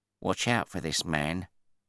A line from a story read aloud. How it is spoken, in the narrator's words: my passenger whispered